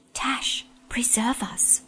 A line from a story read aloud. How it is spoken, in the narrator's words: whispered Lazareline